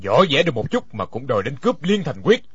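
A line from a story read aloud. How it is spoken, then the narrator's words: Cold mocking laugh. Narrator (Vietnamese): Đinh Điển lạnh lùng cười nói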